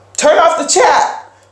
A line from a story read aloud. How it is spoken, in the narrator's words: one of the other storytellers yelled